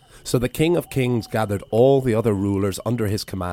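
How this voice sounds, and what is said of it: Usual voice. Nothing is said of it.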